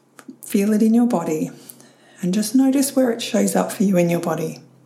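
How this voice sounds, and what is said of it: Croaky voice. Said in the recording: “my voice just went croaky”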